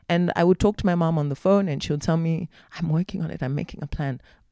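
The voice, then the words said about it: Voice breaking with emotion. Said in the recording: “my voice is breaking”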